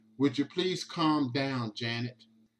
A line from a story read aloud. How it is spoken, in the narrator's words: Basin asks her softly